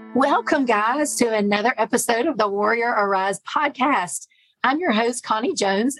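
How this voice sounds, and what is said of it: Hoarse, raspy voice. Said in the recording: “I have a frog in my throat today ... I'm doing this horse and everything. I actually am just getting over bronchitis, a pretty bad case of it.”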